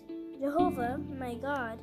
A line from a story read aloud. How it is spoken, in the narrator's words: Paton said